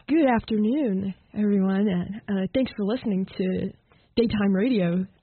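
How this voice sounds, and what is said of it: Put-on radio DJ voice. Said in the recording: “it's more like the DJ voice ... radio voice”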